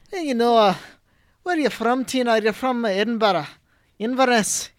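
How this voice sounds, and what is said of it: Put-on rough Scottish accent. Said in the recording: “the Scottish accent. It's a little rougher.”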